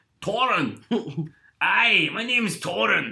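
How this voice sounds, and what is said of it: Put-on Scottish accent. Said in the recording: “apologies to any Scots we may have offended.”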